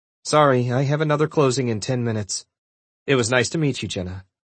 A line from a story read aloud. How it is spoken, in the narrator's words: she said a little coldly